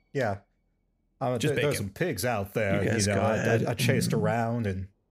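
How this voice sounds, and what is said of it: Deliberately bad Southern US accent. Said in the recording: “my terrible Southern accent”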